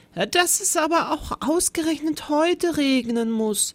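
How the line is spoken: Worried sigh. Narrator (German): seufzte er, besorgt

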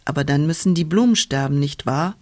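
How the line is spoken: Plain question. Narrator (German): fragte die Wolke

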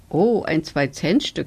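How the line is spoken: Plain. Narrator (German): sagte

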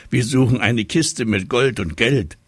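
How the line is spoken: Little tiger calling. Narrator (German): rief der kleine Tiger

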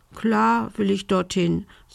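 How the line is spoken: Little witch sighing. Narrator (German): seufzte die kleine Hexe

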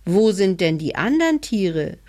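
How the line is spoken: Calling upward. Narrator (German): rief der kleine Hebelmann hinauf

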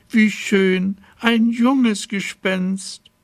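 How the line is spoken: Calling out. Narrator (German): rief da die Schlossherrin

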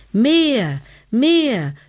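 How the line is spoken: Screaming. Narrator (German): schrie Hebelmann

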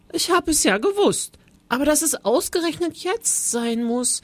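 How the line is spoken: Small quiet voice calling. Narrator (German): rief er mit seiner kleinen leisen Stimme, die sich kein bisschen verändert hatte

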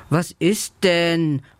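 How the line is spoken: Confused murmur. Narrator (German): murmelt Lela verwirrt

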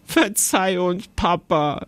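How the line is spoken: Giggling. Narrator (German): sagte Jonathan kichernd

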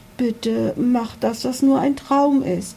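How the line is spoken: Pleading. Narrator (German): flehte

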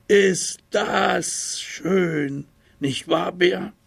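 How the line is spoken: Small tiger calling out. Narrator (German): rief der kleine Tiger

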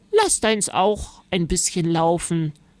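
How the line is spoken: Plain. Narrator (German): sagte Oma

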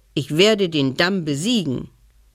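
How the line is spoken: Sudden roar. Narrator (German): Und plötzlich brüllte der Bär

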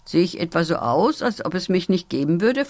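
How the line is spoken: Plain question. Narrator (German): fragte Piri

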